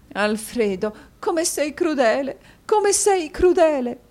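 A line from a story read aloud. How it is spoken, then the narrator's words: Sobbing. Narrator (Italian): disse Madama Mantalini singhiozzando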